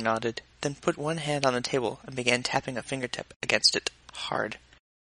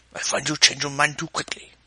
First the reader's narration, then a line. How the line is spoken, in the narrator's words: Lung rumbled